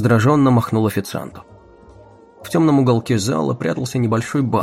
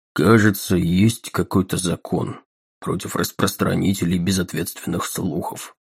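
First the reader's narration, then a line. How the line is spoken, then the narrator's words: Gloomy tone. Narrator (Russian): угрюмым тоном промолвил Таггерт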